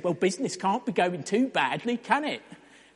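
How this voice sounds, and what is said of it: Attempted East London accent. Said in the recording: “Was that an East London accent?”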